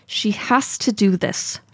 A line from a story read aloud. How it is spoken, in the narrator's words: she says through gritted teeth